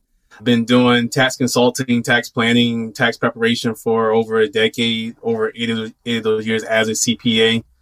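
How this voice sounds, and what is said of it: Southern drawl. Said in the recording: “the southern drawl”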